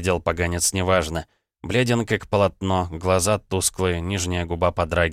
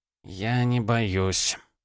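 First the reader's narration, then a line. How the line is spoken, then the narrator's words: Tired, hoarse voice. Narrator (Russian): голос усталый, хриплый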